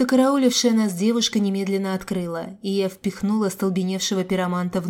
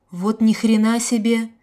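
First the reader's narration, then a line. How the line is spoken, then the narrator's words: Breathed out. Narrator (Russian): только и выдохнул тот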